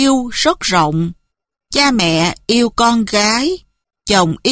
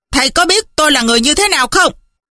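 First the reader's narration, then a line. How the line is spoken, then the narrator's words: Furious man shouting. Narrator (Vietnamese): Ngô sư gia càng tức, ông ta bèn quát lên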